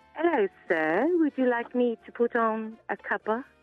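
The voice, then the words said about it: Put-on sultry British maid accent. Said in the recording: “sultry maid in Angel Street, only because I could already do a British accent ... could you deliver us some of the sultry maid with the British accent”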